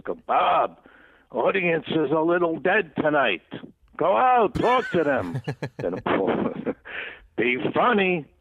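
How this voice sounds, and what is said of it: Clipped Brooklyn cadence, Garry Marshall impression. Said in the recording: “His cadence, ... Brooklyn kind of clipped accent." Because Penny has the same. Penny Marshall, his sister, has kind of the same cadence in her voice.”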